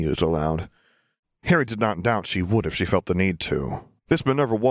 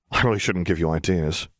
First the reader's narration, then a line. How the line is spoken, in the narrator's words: he sighed